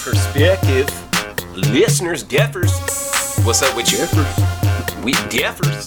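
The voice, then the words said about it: Put-on country twang. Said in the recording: “the little country ass twang I put on”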